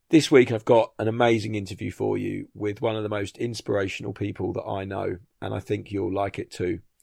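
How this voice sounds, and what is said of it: Hoarse, strained voice. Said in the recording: “I've also lost my voice”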